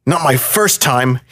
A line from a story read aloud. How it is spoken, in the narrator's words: snapped back